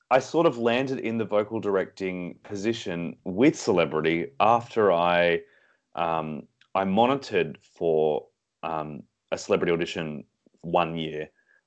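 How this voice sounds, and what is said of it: Australian accent. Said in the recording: “He's from Australia, hence the accent.”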